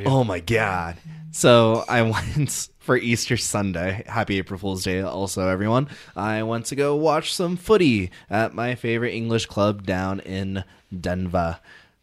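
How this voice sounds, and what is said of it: Raspy, worn-out voice. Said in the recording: “Your voice is super raspy. You're like dying over there.”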